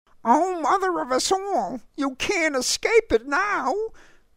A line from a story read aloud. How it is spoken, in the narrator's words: Grace cried